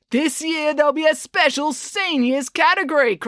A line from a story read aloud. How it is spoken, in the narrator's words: cried Brad